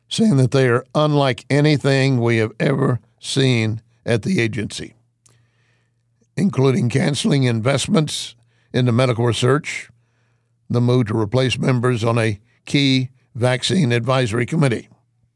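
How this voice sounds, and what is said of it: Strained, failing voice. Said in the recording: “my voice is going like this”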